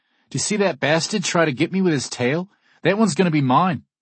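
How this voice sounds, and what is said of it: Shouted New Zealand accent. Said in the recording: “shouts one of the guests in a New Zealand accent.”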